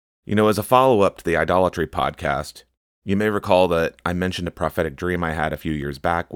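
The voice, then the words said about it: Congested voice. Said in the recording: “I sound a little congested. I'm kind of getting over a cold.”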